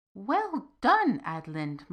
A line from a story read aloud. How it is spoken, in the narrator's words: Mara cried